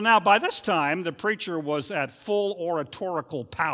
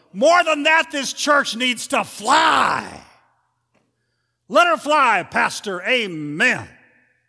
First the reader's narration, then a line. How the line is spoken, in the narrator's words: hitting his full stride now, the preacher bellowed